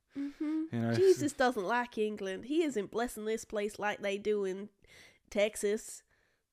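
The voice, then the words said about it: Put-on Southern American accent. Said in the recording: “good American impression ... American accent ... go country, go southern”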